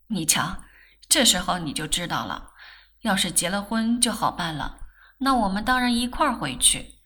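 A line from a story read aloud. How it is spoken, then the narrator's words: Smiling. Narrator (Chinese): 世君 笑道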